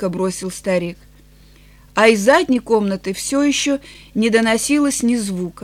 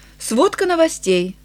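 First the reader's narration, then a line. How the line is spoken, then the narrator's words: Cheerful tone. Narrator (Russian): сказал Энтони бодрым тоном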